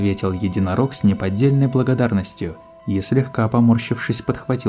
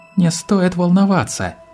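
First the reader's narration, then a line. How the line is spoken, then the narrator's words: Exclaimed. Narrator (Russian): воскликнула Кризалис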